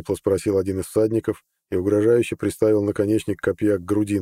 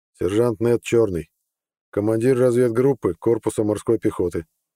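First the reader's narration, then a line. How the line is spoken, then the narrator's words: Calm. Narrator (Russian): спокойно ответил Нед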